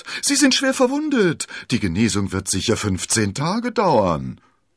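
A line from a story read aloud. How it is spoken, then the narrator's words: Dismayed call. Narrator (German): rief der Wirt bestürzt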